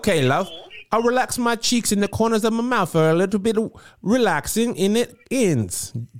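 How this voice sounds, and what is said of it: Attempted British accent. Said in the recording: “British people from my experience, they use their lips in a different way ... when you're doing the accent to smile ... It did sound worlds better to me.”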